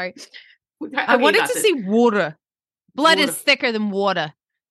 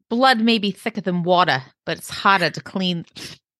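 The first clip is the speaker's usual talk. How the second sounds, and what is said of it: Boston-sounding accent. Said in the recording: “That was like a Boston accent.”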